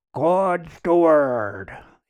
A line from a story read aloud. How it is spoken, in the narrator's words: announced in a loud voice